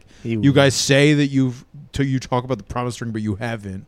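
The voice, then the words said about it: Imitates another person's voice. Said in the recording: “That's a pretty good Liam impression.”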